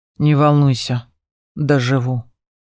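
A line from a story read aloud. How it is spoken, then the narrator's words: Grim promise. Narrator (Russian): мрачно пообещал он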